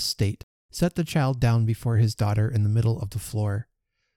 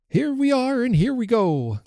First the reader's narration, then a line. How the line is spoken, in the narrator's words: cried Trotty, choking audibly